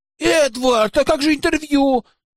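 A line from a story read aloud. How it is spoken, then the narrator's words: Puzzled shout. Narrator (Russian): с недоумением крикнула мне в спину Айлин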